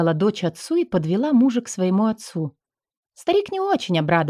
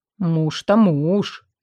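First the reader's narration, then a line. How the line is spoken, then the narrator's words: Grumbling. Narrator (Russian): ворчал он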